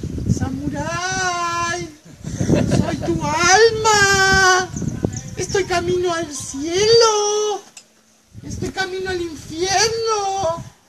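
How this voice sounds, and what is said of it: Little girl's voice. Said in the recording (Spanish): “¿Por qué mi alma tiene voz de niña?”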